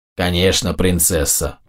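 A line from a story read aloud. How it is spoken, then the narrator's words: Grumbling. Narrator (Russian): проворчал Больд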